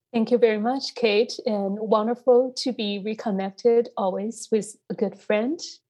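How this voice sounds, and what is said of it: Hoarse voice. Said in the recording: “apologize for my voice and that I'm still recovering from COVID... this hoarse voice”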